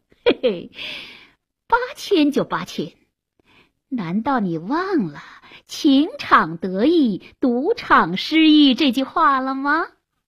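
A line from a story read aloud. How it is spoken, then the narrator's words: Laughing, weird voice. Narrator (Chinese): 阿芒笑了，怪声怪气地说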